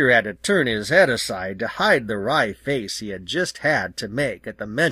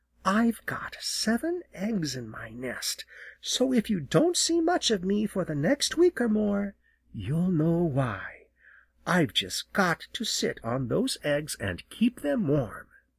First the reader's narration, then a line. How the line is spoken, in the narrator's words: Jenny leaned so far down that Peter wondered how she could keep from falling as she whispered